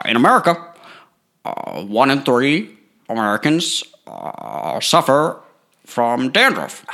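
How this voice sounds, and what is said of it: Imitates another person's voice. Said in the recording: “I'll do Obama. I'm better at Obama. ... Okay, do Obama.”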